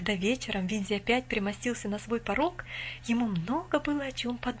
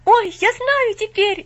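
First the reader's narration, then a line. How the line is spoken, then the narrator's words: Sudden cry. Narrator (Russian): неожиданно вскрикнул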